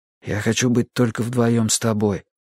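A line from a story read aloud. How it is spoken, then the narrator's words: Whisper. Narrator (Russian): шептал он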